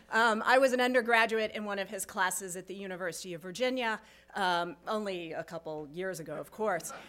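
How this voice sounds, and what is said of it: Choked-up, emotional voice. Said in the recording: “I'm getting a little choked up here.”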